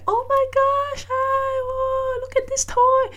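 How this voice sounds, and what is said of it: High-pitched exaggerated baby talk. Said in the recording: “baby voice ... there's this high pitch, kind of like very exaggerating”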